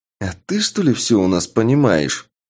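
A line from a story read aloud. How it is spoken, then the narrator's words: Hissing retort. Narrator (Russian): чуть ли не со змеиным шипением ответил вопросом на вопрос Шуст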